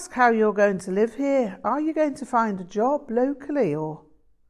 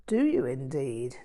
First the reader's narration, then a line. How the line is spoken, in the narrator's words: Jan chuckled